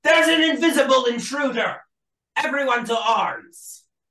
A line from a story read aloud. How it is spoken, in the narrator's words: Shout rings out